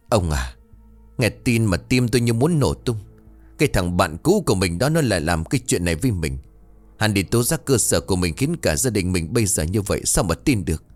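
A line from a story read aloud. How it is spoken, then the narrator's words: Harsh, strained voice. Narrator (Vietnamese): Thiêm Hương gằn giọng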